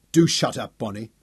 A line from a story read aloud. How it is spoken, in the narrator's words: Daniel snapped at her